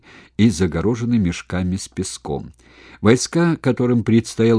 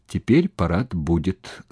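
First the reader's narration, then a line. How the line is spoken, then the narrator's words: Plain. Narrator (Russian): сказал капитан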